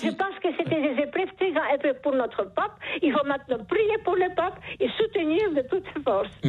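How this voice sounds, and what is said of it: Charming foreign accent. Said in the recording (French): “Vous avez un charmant accent ... ce joli accent”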